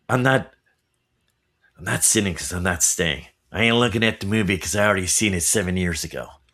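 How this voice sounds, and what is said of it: Christian Slater impression. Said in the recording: “Let me try another Christian Slater accent ... hear your accent”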